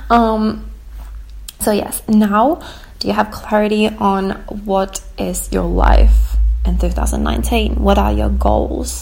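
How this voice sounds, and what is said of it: Hoarse, cracking voice. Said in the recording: “my voice is like cracking. I've been sick for 2 days and I feel like I'm losing my voice”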